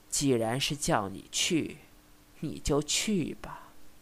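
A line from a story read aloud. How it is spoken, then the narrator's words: Sighing old woman. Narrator (Chinese): 白老太太长叹了一声，道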